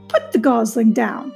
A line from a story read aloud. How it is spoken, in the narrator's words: said the goose with a laugh